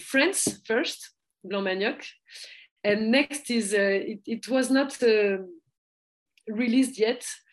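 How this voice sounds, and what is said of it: French-accented English. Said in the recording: “my French accent ... Sorry, my accent.”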